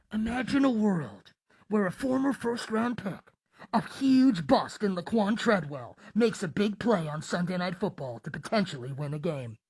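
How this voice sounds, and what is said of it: Movie trailer voice. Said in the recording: “I'm not really the movie trailer voice type of guy”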